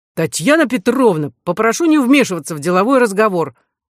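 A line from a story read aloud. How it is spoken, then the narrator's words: Harsh bark. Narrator (Russian): рявкнул комиссар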